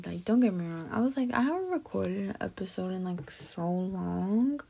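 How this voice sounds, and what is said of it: Quiet, tired, near-whispering voice. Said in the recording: “I feel like I'm whispering because I'm kind of tired too.”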